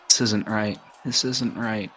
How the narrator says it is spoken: murmuring

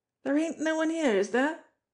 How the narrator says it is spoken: she asked anxiously

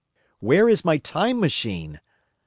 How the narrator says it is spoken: I began, bawling like an angry child

